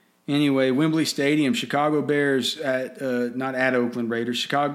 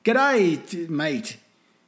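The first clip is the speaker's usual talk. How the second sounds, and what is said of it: Bad put-on Australian accent. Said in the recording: “How's that for a shitty accent? ... That's Australian.”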